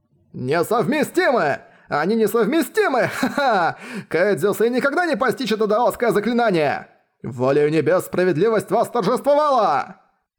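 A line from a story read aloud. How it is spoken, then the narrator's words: Joyful shouting. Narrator (Russian): радостно кричали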